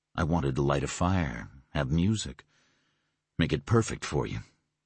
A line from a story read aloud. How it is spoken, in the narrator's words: he murmured